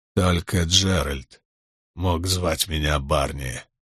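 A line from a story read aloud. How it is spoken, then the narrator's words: Slurred mumbling. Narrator (Russian): пробормотал он, с трудом ворочая языком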